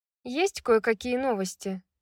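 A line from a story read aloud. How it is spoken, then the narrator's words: Casual. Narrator (Russian): Небрежным тоном ответила Фьюри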